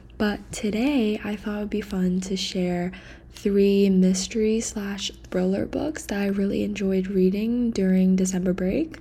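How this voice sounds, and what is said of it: Quiet, whispered speech. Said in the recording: “I'm talking a little quiet because it's currently kind of late ... I have to kind of whisper”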